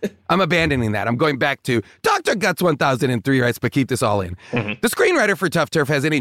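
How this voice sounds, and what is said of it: Usual voice. Nothing is said of it.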